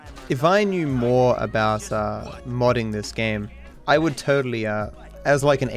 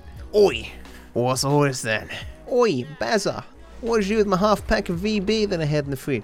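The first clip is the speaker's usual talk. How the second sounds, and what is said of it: Exaggerated stereotypical Australian accent. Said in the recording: “in the most stereotypical Australian accent imaginable”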